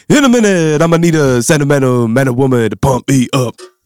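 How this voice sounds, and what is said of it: Sung line in put-on American accent. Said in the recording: “if you do an American accent”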